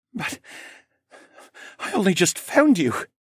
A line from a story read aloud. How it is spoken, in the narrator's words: Callan said as he choked back another sob